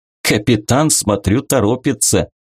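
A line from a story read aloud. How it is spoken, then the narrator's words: Chuckle. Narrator (Russian): хохотнул Нойрон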